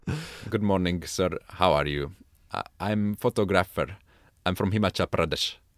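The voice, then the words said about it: Put-on Indian English accent. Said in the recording (Hungarian): “indiai akcentussal angolul beszéltem nekik ... Adsz egy kis ízelítőt az indiai akcentusodból?”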